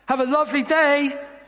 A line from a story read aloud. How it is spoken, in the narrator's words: I shouted